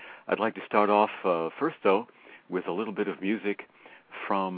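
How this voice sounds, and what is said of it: Usual voice. Nothing is said of it.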